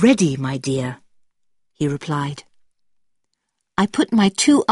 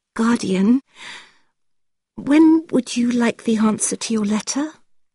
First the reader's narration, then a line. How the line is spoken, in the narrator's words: said in a shaky voice